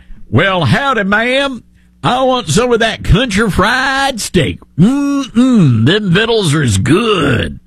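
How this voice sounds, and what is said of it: Exaggerated Southern country accent. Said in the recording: “No, you don't talk like that. ... No, only the Cracker Barrel employees can talk like that.”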